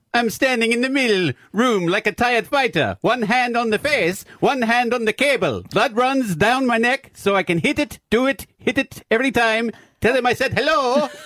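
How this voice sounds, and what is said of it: Put-on Italian accent. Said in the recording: “should I do this one in the accent then? ... Italian? ... Yeah, this is Italian.”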